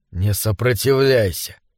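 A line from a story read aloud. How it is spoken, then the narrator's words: Whisper. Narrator (Russian): прошептал схвативший ее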